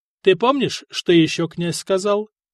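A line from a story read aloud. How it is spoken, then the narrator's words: Plain. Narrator (Russian): спросил Вацлав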